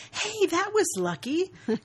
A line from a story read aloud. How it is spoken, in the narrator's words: She grins from ear to ear and exclaims